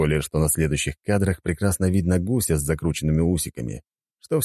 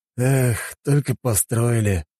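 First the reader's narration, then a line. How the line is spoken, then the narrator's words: Man's sigh. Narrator (Russian): вздохнул мужчина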